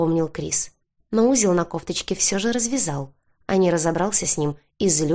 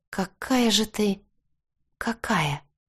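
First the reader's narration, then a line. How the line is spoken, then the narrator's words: Whispered question, thrilled. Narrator (Russian): шепотом спросила я, испытывая дикое удовольствие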